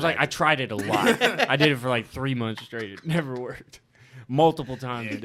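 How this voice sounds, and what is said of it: Impression of a friend's voice. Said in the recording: “That was a good Dom impression.”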